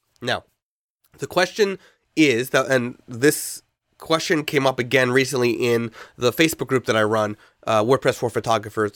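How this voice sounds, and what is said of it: Congested, stuffy-nosed voice. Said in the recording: “pardon my voice, uh, I am a little congested, getting over a cold”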